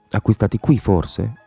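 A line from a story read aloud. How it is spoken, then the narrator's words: Murmured. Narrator (Italian): mormorò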